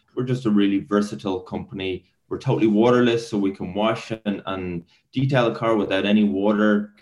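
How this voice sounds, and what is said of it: Irish accent. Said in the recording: “your audience will probably put two and two together and get my accent. So originally Irish”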